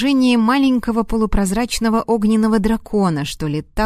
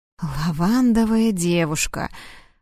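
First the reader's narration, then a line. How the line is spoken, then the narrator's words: Muttered. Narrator (Russian): пробормотал я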